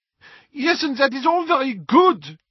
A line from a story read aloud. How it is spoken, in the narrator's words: snapped Fleur